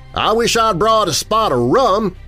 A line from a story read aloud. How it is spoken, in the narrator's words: he cried enthusiastically